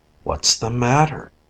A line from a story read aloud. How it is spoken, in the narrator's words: in a sleepy voice